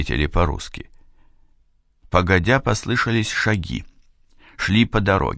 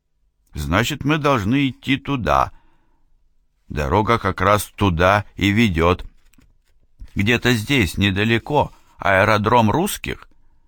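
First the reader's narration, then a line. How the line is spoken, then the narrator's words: Heavy accent. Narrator (Russian): Это было произнесено с сильным акцентом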